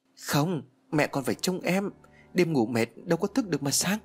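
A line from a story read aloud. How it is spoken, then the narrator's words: Trembling. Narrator (Vietnamese): Ly run rẩy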